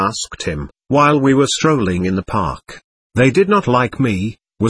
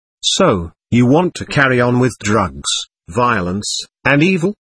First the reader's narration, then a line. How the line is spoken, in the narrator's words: I asked him coldly